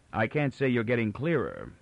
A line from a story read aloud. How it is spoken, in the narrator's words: Farrell said dryly